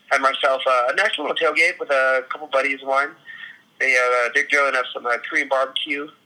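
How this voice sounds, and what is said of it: Hoarse, strained voice. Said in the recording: “I don't know if you can tell, but my voice is a little bit shot at the moment. There was a lot of screaming”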